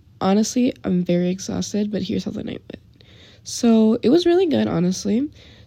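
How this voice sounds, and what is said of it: Hoarse, worn-out voice. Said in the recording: “my voice is kind of gone”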